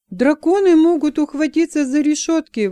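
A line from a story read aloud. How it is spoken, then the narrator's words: Exclamation. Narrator (Russian): воскликнул Джексон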